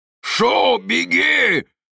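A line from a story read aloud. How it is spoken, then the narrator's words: Hoarse shout. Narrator (Russian): хрипло прокричал Муисин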